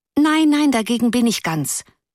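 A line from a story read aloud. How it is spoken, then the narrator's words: Pitying call. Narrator (German): rief eine andere in mitleidigem Ton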